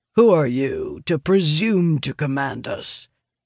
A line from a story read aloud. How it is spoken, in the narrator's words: Micah growls, voice muffled by the mask he insists on wearing